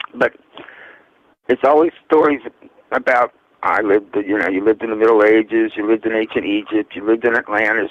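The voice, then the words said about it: Voice with a slight cold. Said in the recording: “I have a little cold.”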